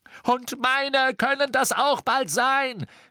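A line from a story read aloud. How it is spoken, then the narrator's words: Shouting. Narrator (German): schrie Ron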